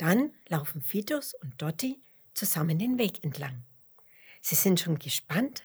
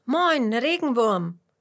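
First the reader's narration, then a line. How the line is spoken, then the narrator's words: Curious calling. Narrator (German): ruft Fitus neugierig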